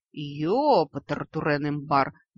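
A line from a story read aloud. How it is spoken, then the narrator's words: Breathed out. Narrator (Russian): выдохнул советник суккубов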